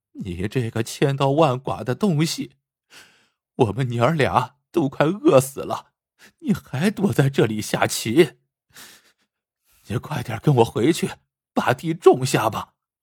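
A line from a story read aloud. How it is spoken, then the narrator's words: Crying, scolding. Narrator (Chinese): 妻子……立刻哭着骂起来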